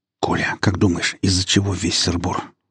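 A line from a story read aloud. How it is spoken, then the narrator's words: Whisper. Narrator (Russian): шепнул Вадим программисту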